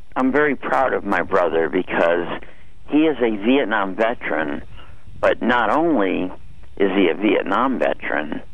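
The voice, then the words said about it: Hoarse, strained voice. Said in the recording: “pardon my laryngitis”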